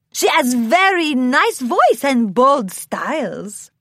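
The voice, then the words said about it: Character voice with thick accent. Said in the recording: “in her thick accent”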